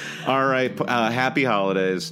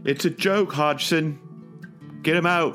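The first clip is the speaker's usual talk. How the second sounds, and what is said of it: Bad put-on British accent. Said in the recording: “your second week in a row with just a terrible British accent”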